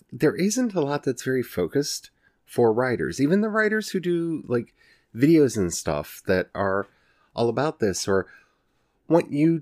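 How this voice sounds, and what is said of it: Ozarks Southern US accent. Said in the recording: “I'm from the Ozarks and y'all know that because my accent comes out and I say y'all all the time”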